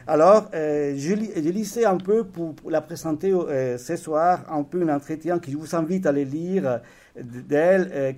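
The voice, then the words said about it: Andalusian Spanish accent in French. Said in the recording (French): “mon accent andalou”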